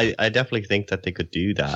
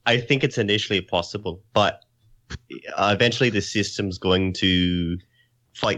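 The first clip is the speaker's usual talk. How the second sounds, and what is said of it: Put-on Scottish accent. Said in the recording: “I don't know why I'm going to talk in the Scottish accent, but I guess I'm going to do it.”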